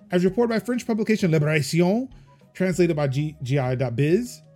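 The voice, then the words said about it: Put-on French accent. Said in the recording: “I feel like I nailed that French accent ... it's also the French accent that will get me shot in the streets of France”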